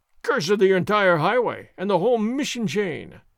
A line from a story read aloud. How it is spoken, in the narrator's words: Sergeant Gonzalez roared